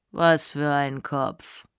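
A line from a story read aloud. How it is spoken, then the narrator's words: Very calm. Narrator (German): fragte er ganz ruhig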